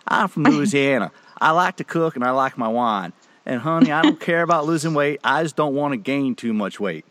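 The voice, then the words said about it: Imitated Louisiana woman's accent. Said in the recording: “I got to do her accent.”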